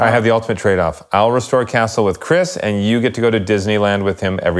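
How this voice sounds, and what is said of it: Usual voice. Nothing is said of it.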